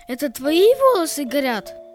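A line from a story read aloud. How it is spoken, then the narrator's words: Surprised exclamation. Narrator (Russian): воскликнул удивленно Петя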